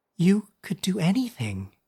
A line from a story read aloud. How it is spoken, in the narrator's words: Anders whispered